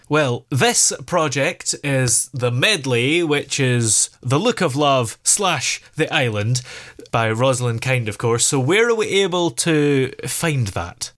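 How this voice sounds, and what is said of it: Scottish accent. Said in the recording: “I love your accent. Are you ... Irish? ... It's Scottish.”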